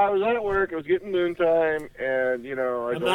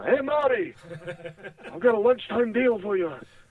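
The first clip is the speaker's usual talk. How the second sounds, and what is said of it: Impersonates a hippie movie scientist. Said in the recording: “this kind of hippie, you know, Doc Brown kind of guy ... your impersonation”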